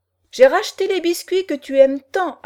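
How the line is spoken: Loud ringing announcement. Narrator (French): annonça Jeanne Sarella d'une voix claironnante

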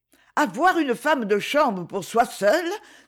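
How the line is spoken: Exclaimed. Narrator (French): s'écrie Florence

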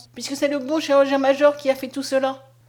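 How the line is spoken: Exclaimed. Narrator (French): s'écria Conscience

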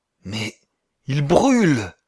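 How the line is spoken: Hoarse exclamation. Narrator (French): s'écria Wallens d'une voix rauque

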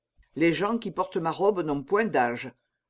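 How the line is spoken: Curt, dry monk. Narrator (French): répondit sèchement le moine

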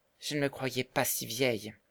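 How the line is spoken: Quiet after long silence. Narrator (French): dit Marguerite après avoir longtemps gardé le silence

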